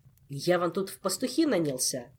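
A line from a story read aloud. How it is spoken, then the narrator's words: Snapping retort. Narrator (Russian): огрызнулся Диего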